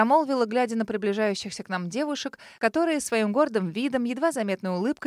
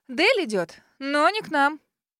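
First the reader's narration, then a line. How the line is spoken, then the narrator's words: Friend chuckling, speaking quickly. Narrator (Russian): хохотнула подруга, быстро проговорила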